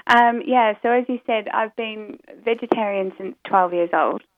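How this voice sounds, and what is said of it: Mixed UK and New Zealand accent. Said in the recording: “my accent's a bit muddled up because originally I come from New Zealand. ... I heard the New Zealand in there.”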